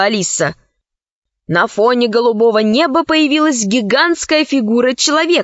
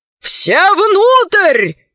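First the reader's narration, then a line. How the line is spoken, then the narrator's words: Admiral shouting. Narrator (Russian): закричал адмирал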